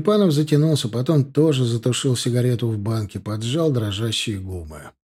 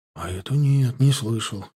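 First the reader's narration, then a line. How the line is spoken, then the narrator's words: Sighing. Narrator (Russian): вздохнул Синицын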